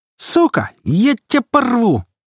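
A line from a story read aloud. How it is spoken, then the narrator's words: Humiliated shrieking. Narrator (Russian): провизжал униженный свищ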